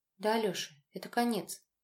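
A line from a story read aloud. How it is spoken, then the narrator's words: Quiet but firm. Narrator (Russian): тихо, но твердо проговорила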